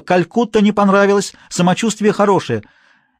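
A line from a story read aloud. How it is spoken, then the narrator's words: Shouting. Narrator (Russian): кричала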